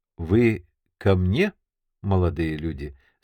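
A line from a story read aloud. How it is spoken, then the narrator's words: Calm question. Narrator (Russian): спокойно спросила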